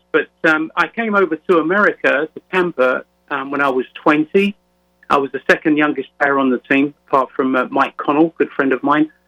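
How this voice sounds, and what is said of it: London English accent. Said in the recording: “you can probably gather from my accent that I was born and raised in London, England”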